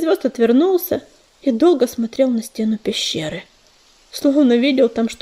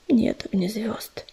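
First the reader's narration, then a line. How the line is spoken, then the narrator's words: Quiet reply. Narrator (Russian): так же тихо ответил ежевика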